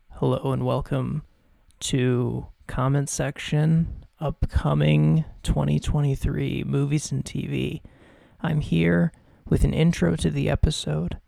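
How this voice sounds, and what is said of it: Whispering. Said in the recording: “If you're wondering why I'm whispering”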